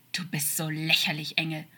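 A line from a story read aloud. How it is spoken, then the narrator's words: Hissing like a snake. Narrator (German): stieß er zischend wie eine Schlange hervor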